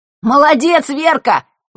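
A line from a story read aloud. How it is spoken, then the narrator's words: Sudden shout. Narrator (Russian): выкрикнул невесть, откуда появившийся Лешка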